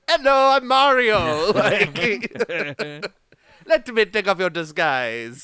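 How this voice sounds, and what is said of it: Funny put-on Italian accent. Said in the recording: “doing a funny voice ... He's like Italian.”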